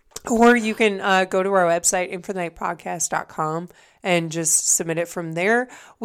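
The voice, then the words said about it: Raspy, husky voice. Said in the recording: “sexy voice, which is still happening ... Got real raspy.”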